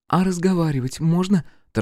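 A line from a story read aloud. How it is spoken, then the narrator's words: Hurried question. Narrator (Russian): торопливо спросила Катерина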